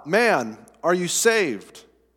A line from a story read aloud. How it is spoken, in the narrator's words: He called out